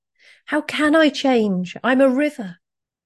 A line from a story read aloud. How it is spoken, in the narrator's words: The river cried out again